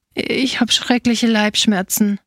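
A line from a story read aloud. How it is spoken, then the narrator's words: Small sighing voice. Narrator (German): seufzte der kleine Feigendieb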